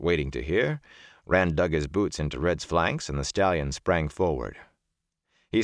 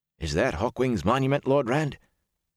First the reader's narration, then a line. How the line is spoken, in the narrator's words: Huron asked uneasily